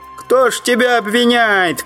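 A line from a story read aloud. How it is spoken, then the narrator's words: Shout from crowd. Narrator (Russian): крикнули в толпе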